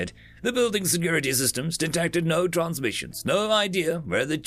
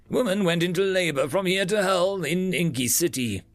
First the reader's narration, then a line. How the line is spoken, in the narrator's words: he chuckled